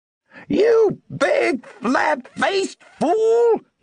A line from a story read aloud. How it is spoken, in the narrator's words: had shouted